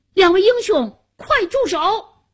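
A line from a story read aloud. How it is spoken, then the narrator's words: Loud shout. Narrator (Chinese): 夏楠高声喊道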